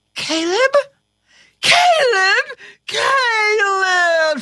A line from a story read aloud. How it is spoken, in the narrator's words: she shrieked